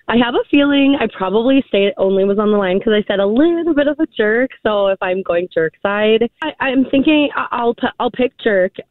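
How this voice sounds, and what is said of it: Slightly scratchy, cracky voice. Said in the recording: “Sorry about my voice. ... it's a little scratchy ... It's just a little cracky”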